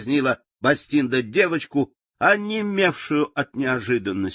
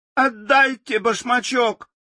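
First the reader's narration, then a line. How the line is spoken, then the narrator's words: Screaming. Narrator (Russian): закричала Элли, придя в себя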